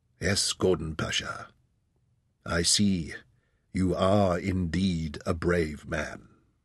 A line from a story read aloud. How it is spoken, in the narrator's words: Osman studied his face, then said quietly